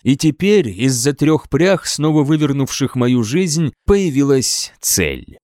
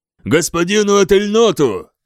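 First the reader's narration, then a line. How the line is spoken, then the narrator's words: Shouted reply. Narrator (Russian): крикнул в ответ один из них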